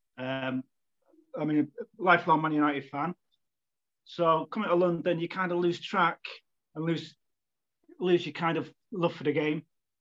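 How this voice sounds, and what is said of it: Manchester accent. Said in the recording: “as you probably can tell from the accent, uh, I'm not London born and bred. Uh, I started life in Manchester”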